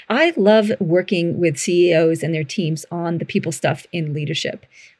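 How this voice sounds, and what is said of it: Slightly mixed Canadian-Australian accent. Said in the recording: “my accent is slightly funky or not. I'm a Canadian living in Australia and have been down under for 20 something years.”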